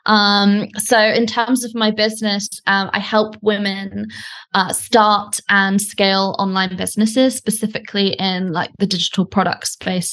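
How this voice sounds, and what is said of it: British English accent. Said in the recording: “As you can probably tell from my accent, I'm British”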